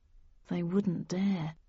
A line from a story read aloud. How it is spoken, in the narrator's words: I whispered